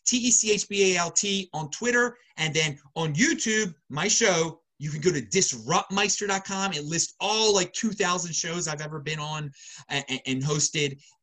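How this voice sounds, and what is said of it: Baltimore accent. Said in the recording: “You can hear my lovely Baltimore accent.”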